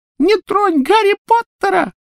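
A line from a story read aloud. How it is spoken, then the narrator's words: Squeaky voice. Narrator (Russian): пропищал он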